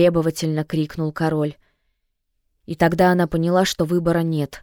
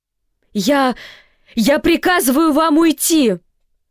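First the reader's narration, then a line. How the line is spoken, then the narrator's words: Strained hoarse shout. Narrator (Russian): срывая голос, крикнула Сьюзен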